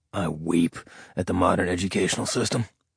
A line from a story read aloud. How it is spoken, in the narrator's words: Ash said under his breath